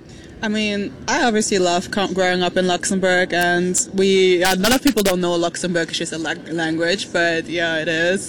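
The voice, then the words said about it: Luxembourgish-accented English. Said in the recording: “I love your accent. It's beautiful. You grew up speaking Luxembourgish”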